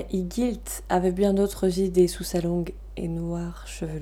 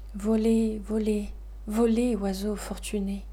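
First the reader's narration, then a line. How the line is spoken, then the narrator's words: Sighing. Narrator (French): disait Tigilt en soupirant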